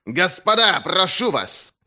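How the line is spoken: Roaring. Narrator (Russian): взревел Берр

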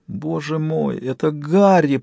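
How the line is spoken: Groan. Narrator (Russian): простонал Джек

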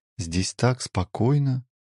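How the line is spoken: Soft. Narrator (Russian): тихо произнесла Элина

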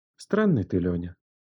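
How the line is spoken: Quiet. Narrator (Russian): тихо сказала она

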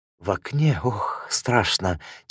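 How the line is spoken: Quiet, frightened. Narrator (Russian): тихо сказала Кайо

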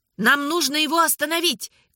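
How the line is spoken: Shout. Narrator (Russian): крикнула Анна

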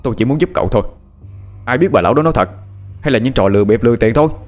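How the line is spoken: Annoyed shout. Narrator (Vietnamese): Phát cũng bực mình mà quát lên

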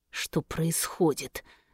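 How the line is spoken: Through gritted teeth. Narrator (Russian): сквозь зубы спросил он

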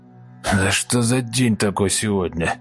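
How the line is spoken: Groaning. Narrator (Russian): Простонал Сиплый

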